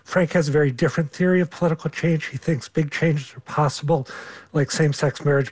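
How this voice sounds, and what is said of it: Hoarse, nearly lost voice. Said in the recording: “I've completely lost my voice.”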